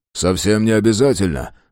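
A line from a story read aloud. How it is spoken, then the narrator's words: Calm objection. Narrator (Russian): спокойно возразил Фрейзер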